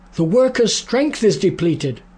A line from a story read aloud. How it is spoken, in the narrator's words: cried